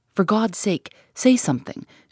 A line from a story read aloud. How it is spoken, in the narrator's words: she exclaimed, passionately